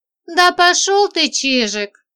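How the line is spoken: Laughing. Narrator (Russian): засмеялась

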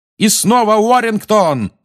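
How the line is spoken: Yelling. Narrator (Russian): орал Ли

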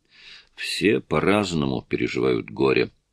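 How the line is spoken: Gloomy. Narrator (Russian): мрачно сказал им Гарри

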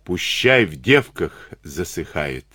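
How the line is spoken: Plain. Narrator (Russian): ответил Ватнин

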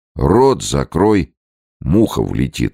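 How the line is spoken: Plain. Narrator (Russian): сказал губернатор

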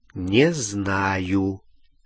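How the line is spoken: Slow. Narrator (Russian): медленно ответил Гарри

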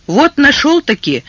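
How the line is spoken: Exclaimed. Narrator (Russian): воскликнул

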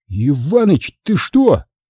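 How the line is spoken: Tearful offended groan. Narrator (Russian): Чуть не плача, обиженно застонал детина

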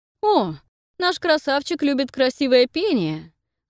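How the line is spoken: Lively, gloating laugh. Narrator (Russian): оживился Нейтан и злорадно расхохотался

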